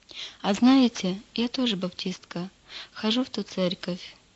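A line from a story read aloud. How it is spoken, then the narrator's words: Calm. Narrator (Russian): спокойно произнесла Лида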